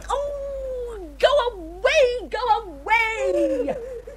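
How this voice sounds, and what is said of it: Screaming. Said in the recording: “if you don't stop screaming”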